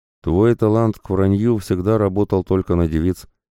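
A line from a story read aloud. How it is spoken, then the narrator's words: Plain. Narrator (Russian): наконец ответил он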